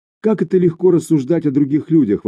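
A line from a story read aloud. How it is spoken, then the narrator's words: Exclaiming. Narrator (Russian): воскликнула Сумире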